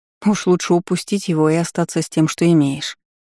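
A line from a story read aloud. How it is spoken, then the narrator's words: Sighing. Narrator (Russian): вздохнула я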